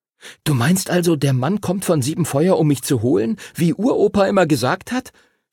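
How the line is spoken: Excited question. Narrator (German): fragte Henry aufgeregt

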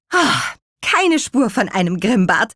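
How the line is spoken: Relieved exclamation. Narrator (German): rief Petronella erleichtert

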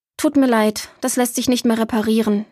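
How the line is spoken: Plain. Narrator (German): sagte Maja

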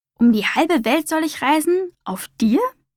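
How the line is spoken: Plain question. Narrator (German): fragte Humboldt

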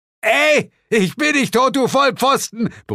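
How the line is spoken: Bellowing upward. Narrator (German): brüllte Zuko zu uns herauf

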